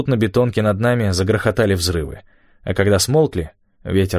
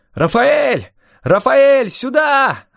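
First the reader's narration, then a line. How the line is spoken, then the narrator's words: Yelling. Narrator (Russian): орал я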